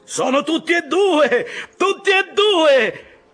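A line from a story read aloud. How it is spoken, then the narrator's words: Joyful shout. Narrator (Italian): esclamò nuovamente Tashtego con un grido di gioia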